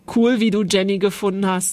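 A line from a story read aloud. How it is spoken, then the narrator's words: Plain. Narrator (German): sagte er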